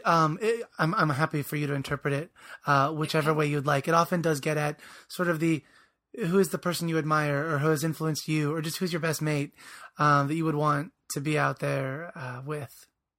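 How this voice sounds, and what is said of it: Voice affected by a cold. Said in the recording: “as you can probably hear in my voice,... I was away at a national conference the entire week long. So Sophie's really getting this cold.”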